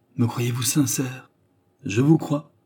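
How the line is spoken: Gentle murmur. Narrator (French): murmura-t-il d'une voix qui n'avait plus rien d'acerbe

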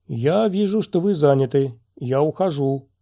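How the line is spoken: Boomed in friendly tone. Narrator (Russian): прогудел Ту-Джей дружеским тоном

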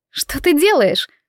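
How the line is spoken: Breathless exclamation. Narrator (Russian): воскликнула она, по-прежнему не в силах выровнять дыхание

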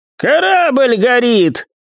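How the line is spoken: Shouted. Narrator (Russian): крикнул Хань

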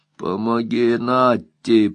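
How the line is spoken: Hoarse wheeze. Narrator (Russian): прохрипел Скип

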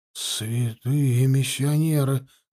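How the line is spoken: Breathless exhale. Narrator (Russian): выдохнул Дюмель

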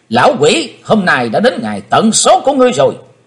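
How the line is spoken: Loud shout. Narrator (Vietnamese): Chàng hét to

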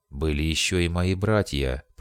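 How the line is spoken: Grumbled. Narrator (Russian): проворчал он

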